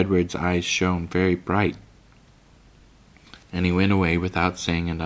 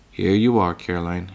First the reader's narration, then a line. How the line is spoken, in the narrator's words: he said, and his voice sounded natural